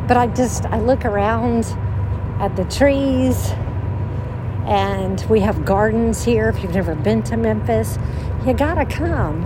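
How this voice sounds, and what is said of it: Out of breath while walking. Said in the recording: “I'm probably also getting out of breath as I walk my steps today.”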